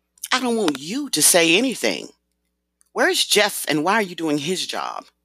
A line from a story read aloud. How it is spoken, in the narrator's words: Shanti asked in an irritated tone